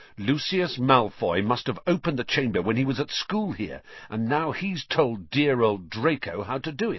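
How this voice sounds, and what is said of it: Triumphant voice. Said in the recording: “said Ron in a triumphant voice”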